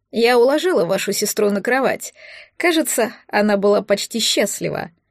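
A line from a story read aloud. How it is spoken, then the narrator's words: Dry tone. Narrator (Russian): сухо проинформировала она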